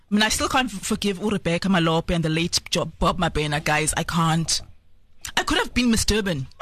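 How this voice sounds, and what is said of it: Polished English-sounding twang. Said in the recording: “my English accent ... You can hear my parents pay for the twang. Like, I can't help speaking like this.”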